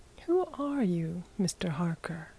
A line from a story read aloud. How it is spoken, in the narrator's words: asked Bryce quietly